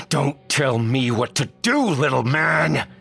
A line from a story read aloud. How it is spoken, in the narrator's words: I roared